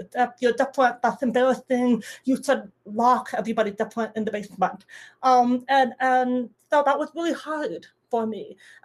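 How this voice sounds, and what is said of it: Distinctive accent of hard-of-hearing speaker. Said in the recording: “I have this accent and this hearing aid”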